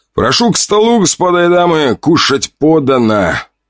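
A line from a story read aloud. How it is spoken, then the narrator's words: Loud call. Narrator (Russian): громко позвал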